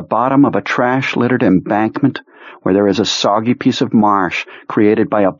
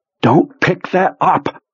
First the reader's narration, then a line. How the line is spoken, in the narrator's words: Pete says urgently